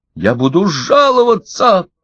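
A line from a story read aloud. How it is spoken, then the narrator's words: Shouting. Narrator (Russian): кричал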